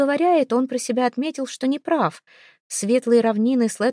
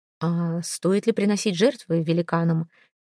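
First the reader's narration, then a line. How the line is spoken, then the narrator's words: Gentle. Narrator (Russian): мягко заметил Хельги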